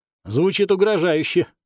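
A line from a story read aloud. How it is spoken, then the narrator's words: Wry snort. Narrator (Russian): хмыкнул я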